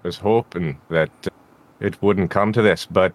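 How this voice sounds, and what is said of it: Put-on Scottish accent. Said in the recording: “See, that just went right into Scottish. ... today I'm the one with the accent trouble.”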